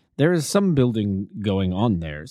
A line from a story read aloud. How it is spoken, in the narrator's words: said Holmes